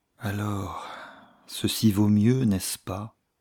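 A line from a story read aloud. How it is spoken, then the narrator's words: Long sigh. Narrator (French): reprit-elle avec un long soupir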